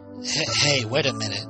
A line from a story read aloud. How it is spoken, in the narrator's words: he said